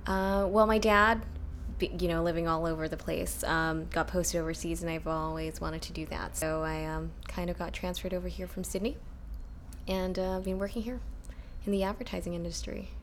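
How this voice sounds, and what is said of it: American accent. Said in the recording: “I sound American because I went to an American school.”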